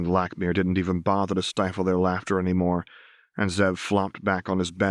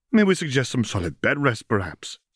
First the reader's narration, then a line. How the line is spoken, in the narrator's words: Zariah continued, giggling through the words